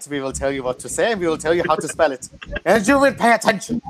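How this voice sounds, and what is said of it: Convincing put-on German accent. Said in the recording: “That was a good German accent, though. You almost fooled me.”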